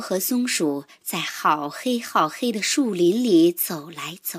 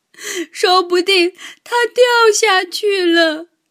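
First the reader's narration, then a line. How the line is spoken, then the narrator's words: Crying shout. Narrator (Chinese): 猫哭着大喊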